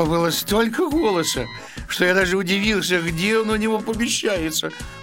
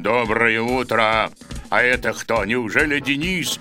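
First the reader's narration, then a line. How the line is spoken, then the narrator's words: Terrible deep bass voice. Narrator (Russian): сказал ужасным басом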